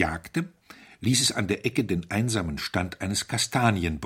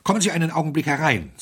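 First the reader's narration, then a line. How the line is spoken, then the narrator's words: Breathless. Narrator (German): sagte Smythe atemlos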